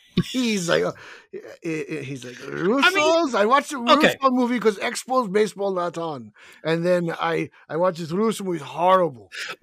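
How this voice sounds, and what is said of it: Put-on Russian-sounding accent. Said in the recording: “Why are you making him sound Russian? ... he sounds more Russian than French right now”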